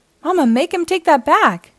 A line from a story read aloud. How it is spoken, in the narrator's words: cried Sister